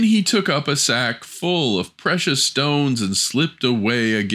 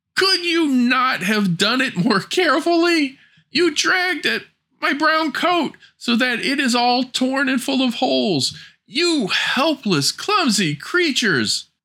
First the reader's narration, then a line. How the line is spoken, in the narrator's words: As soon as the dwarf had recovered from his first fright, he cried with his shrill voice